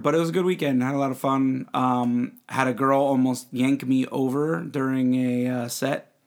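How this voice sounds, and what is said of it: Tired voice from singing. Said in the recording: “My voice is a little tired. I sang a lot. ... My voice is a little tired”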